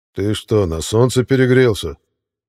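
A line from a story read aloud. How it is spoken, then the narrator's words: Menacing bass growl, warrior. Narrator (Russian): грозным басом прорычал Витязь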